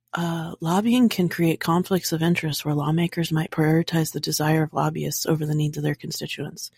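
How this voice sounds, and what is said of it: Soft whispery ASMR voice. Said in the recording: “do it in your ASMR voice”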